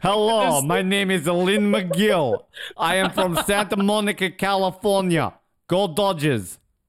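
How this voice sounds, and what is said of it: Mock Russian accent. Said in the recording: “your Russian accent's coming along”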